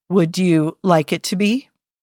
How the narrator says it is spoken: slowly said

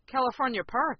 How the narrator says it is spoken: I asked nervously

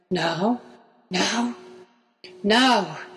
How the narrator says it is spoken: gasped Draco

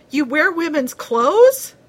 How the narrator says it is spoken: asked Coughlin somewhat hysterically

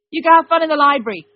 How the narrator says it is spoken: Dean yelled back

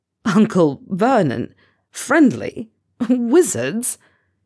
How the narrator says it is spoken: he sputters, gasping for air in between laughs

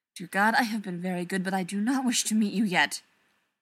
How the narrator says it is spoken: Zelenka muttered

